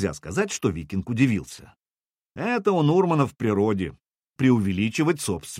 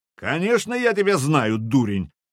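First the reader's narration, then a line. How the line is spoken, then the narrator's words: Gruff bark. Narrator (Russian): рявкнул Стивнир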